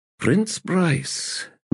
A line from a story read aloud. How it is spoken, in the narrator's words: murmured Abrastel